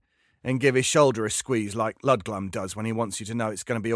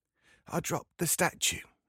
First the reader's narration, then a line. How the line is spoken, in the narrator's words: he says in a whisper